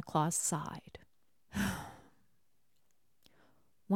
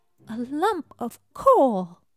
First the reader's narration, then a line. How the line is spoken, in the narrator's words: cried Jasper